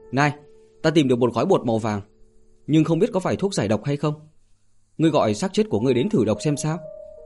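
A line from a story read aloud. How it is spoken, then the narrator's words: Loud shout. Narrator (Vietnamese): hét lớn với Bạch Thế Bảo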